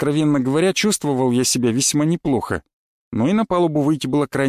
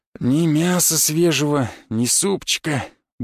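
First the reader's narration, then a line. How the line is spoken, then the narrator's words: Grumbling old sailor. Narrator (Russian): буркнул худой седовласый матрос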